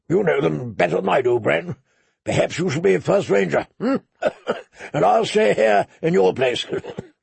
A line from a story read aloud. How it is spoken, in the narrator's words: Benjen Stark had laughed and said